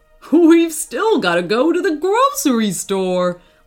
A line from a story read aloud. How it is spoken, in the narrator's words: laughed his dad